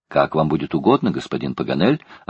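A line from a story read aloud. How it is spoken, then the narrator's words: Plain. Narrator (Russian): ответил Джон Манглс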